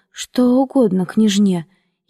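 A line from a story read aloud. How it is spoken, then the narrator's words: Slightly trembling voice. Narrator (Russian): спросил немного дрожащим голосом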